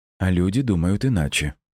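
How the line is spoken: Calm. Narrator (Russian): спокойно ответила Света

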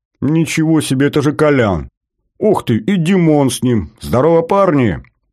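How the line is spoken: Excited yelling. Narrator (Russian): заорал Батоныч

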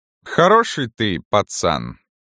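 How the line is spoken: Slow. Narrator (Russian): медленно сказал он

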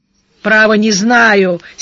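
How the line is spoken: Angry. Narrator (Russian): сердито сказал Даглас

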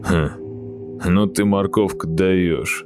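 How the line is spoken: Condescending grunt. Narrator (Russian): Снисходительно хмыкнул Юр Юрыч

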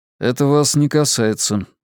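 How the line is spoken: Dry reply. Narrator (Russian): сухо ответил я

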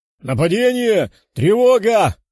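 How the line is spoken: Shouting into radio. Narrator (Russian): кричал он в свою рацию

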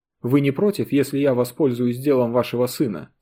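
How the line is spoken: Plain. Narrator (Russian): спросил журналист

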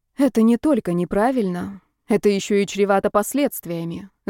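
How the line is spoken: Female sigh. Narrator (Russian): вздохнула Ева

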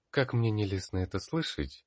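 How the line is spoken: Sigh. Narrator (Russian): вздохнула

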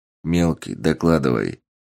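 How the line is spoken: Quiet. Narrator (Russian): тихо сказал Сергей

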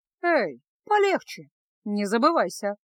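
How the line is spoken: Calm. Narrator (Russian): спокойно ответила Феска

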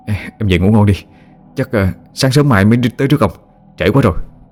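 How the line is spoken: Trembling voice. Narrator (Vietnamese): Hùng mới run rẩy nói

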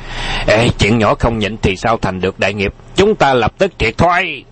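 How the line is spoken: Shouted. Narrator (Vietnamese): Tào Ấn Long quát lên

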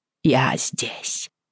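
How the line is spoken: Hoarse rasp. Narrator (Russian): прохрипела я

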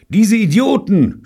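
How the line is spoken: Shouting. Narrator (German): schrie David

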